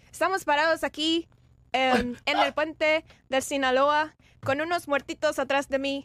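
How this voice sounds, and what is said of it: Imitated Mexican Spanish accent. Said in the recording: “You got to do it with his Mexican accent ... imitate their accent ... I won't be accurate”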